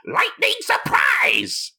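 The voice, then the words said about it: Bad imitation of a cartoon character. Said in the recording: “as he Roshi pronounces it in the dub of Tenkaichi Three ... That was a bad impression”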